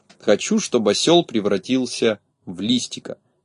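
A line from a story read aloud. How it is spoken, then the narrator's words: Quiet. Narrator (Russian): негромко сказал он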